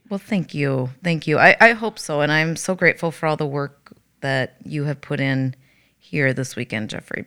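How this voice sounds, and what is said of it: Slightly raspy, gravelly voice. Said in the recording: “my voice sounds a little raspy ... my voice is taxed a little bit ... a little bit gravelly”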